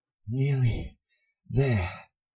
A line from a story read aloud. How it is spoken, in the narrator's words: Harry panted